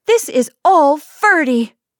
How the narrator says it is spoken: she burst out angrily

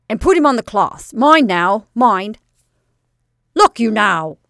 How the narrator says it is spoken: snapped the manager

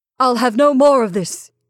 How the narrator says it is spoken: he said with a shout of long-repressed fury

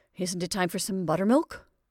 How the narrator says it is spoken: he said hastily

